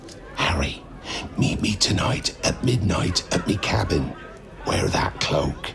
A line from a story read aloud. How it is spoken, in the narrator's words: said in a whisper so low that only Harry could hear it